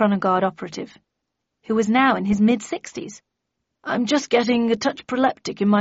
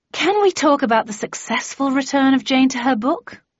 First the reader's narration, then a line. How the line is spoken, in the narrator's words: I asked wearily